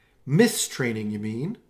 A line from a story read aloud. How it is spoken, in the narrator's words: Allegra snapped